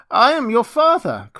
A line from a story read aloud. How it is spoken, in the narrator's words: cried he